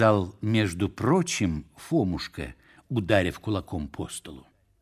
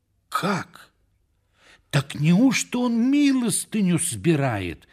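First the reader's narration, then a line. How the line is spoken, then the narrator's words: Exclaiming. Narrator (Russian): воскликнул он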